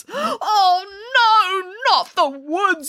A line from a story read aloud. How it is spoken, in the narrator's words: wailed Boris